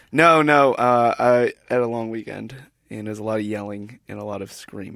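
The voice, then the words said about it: Hoarse, rough voice. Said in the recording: “are you a little bit hoarse? Are there ants in your throat?”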